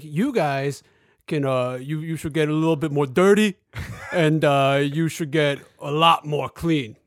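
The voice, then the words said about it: Bad impression of an actor's voice. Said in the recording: “bad Sylvester Stallone impression”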